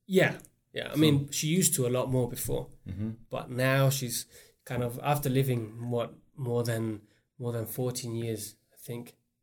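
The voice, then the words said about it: Slight British accent. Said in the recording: “you could tell your accent's a little different. Yeah, there's a little bit of British in there.”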